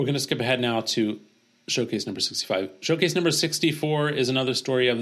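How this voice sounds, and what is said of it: Usual voice. Nothing is said of it.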